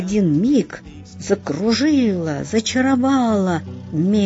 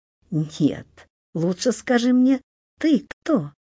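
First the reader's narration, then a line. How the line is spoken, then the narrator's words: Ringing laughter, woman. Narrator (Russian): засмеялась своим звонким голосом мнимая красавица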